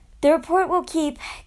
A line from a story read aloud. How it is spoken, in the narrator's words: Kate said with a yawn